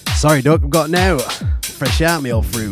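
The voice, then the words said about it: Exaggerated put-on British accent. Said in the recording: “It's a good job I don't talk like that, really, though, eh? That was more Chezzy, to be fair, than Chef ... I know my accent can be bad”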